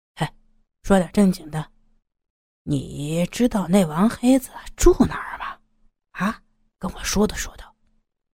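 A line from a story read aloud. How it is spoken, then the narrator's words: Low question. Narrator (Chinese): 刀疤强 转而低声问道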